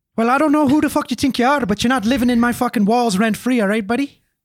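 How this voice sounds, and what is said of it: Put-on Irish accent. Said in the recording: “It's a good Irish accent ... I thought we were streaming with Colin Farrell”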